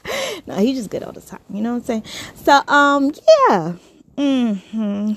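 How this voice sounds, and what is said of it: New York accent. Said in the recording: “I am from New York. Hi, if you didn't notice uh, by the accent”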